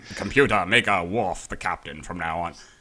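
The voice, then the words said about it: Captain Picard impression. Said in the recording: “pretty good Picard impression ... Captain Picard was just on here”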